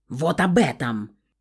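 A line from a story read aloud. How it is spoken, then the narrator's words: Barked loudly. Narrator (Russian): Гаркнул мужчина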